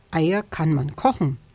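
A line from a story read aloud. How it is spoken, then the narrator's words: Plain. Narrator (German): sagt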